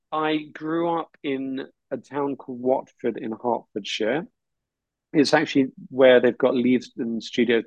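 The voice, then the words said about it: English accent. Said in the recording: “We can all hear your accent ... Got the accent. ... It's the the King's English.”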